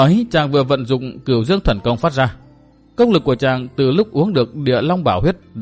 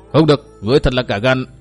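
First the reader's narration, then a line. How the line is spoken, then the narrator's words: Loud shout. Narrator (Vietnamese): Từ Mã Minh hét to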